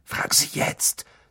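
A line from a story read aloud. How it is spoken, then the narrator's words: Hissed. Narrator (German): zischte Ron Harry zu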